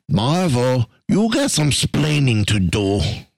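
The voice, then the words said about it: Poorly imitated accent. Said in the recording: “bad accent”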